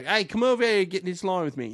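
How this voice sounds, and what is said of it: Slow put-on English accent. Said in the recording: “I just did like sort of an English accent ... but I did it way too slow to be Matt Booker because he talks so fast”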